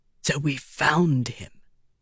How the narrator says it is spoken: Windle whispered

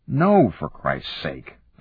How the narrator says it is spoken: said irritably

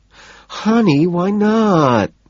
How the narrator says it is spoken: She whines

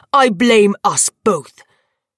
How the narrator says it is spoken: he spat

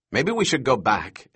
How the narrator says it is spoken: Eddie said anxiously

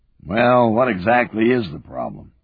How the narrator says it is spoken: A growling voice

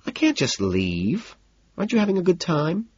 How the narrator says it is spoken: she sighs

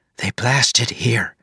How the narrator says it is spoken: she whispered

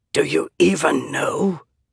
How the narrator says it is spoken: he whispered through bloody lips

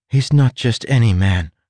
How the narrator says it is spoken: Tress said

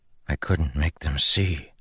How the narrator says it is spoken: Kaladin whispered

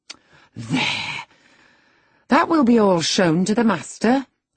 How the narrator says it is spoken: I exclaimed

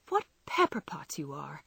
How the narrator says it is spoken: sighed Joe

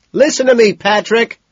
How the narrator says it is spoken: he screams

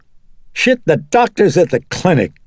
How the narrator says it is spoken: Chris said irritably

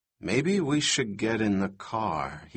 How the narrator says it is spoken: said quietly

